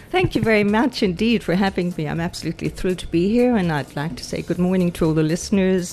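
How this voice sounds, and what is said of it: Irish accent with a lilt. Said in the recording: “I'm detecting an Irish accent, a lilt”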